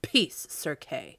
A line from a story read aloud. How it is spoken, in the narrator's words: sternly said the king